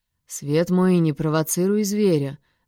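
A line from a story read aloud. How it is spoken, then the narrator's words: Threatening growl. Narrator (Russian): в голосе прорезались угрожающие и рычащие нотки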